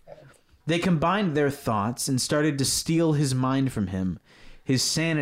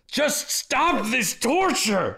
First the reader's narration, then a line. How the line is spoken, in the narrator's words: Ling shouted